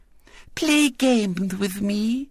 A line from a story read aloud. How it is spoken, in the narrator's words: went on Violet Elizabeth, soothingly